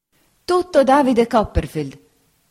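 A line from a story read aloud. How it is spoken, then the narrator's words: Exclamation. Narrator (Italian): esclamò la signora Bezze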